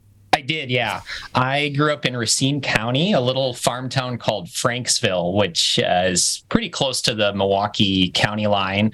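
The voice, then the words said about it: Wisconsin accent. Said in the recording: “your accent makes me think you grew up in Wisconsin”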